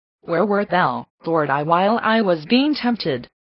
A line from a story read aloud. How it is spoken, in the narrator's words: cried the saint of the desert